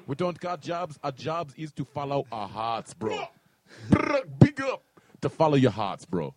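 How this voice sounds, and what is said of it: Put-on Jamaican accent. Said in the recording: “The accents. ... We're Jamaican, we Jamaican, bro.”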